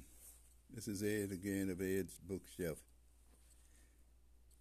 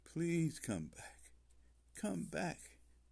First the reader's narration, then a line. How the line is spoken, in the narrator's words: she uttered in a pained, animalistic voice